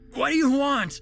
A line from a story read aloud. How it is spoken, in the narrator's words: Peter cried out